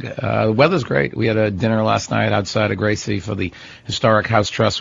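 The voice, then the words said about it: Hoarse, croaky voice. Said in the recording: “I don't know why I have a frog in my throat.”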